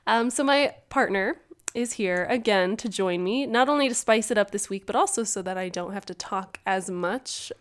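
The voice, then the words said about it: Congested, sniffly voice. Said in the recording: “I've got the sniffles this week, so if you can't tell, my voice sounds a little bit different.”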